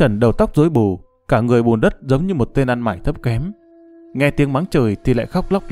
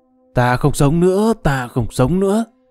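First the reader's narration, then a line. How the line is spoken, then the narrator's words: Feigned frantic wailing. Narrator (Vietnamese): Cốc Trần giả vẻ điên cuồng gào lên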